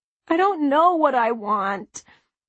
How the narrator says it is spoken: Charlotte wailed

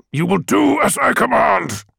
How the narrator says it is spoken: he snarled

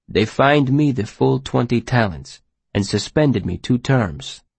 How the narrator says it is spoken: Sleet said grimly

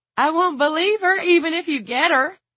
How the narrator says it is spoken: Lila cried

